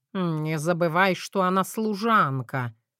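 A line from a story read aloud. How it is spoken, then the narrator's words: Through gritted teeth. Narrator (Russian): процедил Мэтью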